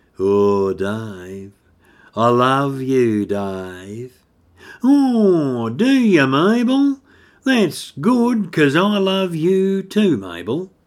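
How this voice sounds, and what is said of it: Slow Australian country accent. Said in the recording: “take off the characters Dave and Mabel with a real slow country accent.”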